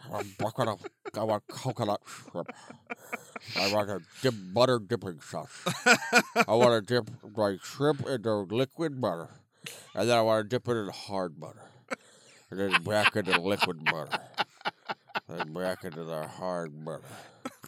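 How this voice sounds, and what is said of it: Fat guy voice, talking back in throat. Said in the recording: “I'm just trying to do a fat guy voice ... talking back in your throat, you got it.”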